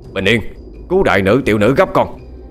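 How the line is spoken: Monk's urgent shout. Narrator (Vietnamese): Sư thầy quát lên

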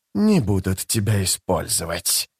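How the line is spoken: Hissing. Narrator (Russian): зашипел Искарал прыщ

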